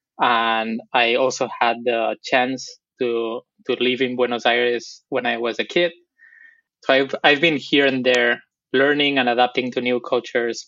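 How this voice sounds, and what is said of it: Spanish accent from Barcelona. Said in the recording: “my accent is from Barcelona ... I'm from Spain”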